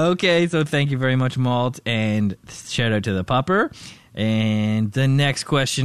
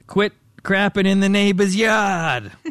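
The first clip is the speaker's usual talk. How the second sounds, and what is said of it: Put-on carried-over accent. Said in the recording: “That's exactly what Malt sounds like. ... I think I carried over the accent from Tom's question.”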